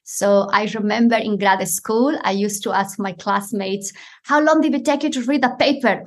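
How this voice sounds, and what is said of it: Non-native accented English. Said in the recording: “as an immigrant that has an accent”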